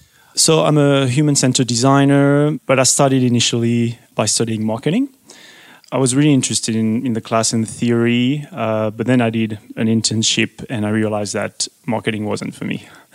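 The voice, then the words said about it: French accent. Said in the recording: “This is back in France, obviously. I can hear the accent.”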